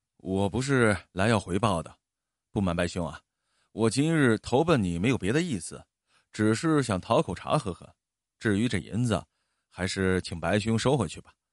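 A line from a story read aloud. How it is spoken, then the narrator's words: Embarrassed mumbling. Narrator (Chinese): 燕一哥脸涨得通红，喃喃的说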